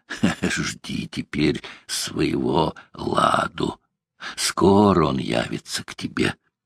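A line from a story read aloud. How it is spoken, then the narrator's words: Hoarse laughing. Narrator (Russian): Ворожея сказала с хриплым смехом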